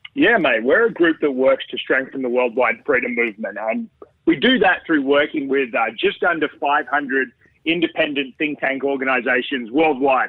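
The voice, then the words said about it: Australian accent. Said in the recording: “his Aussie accent”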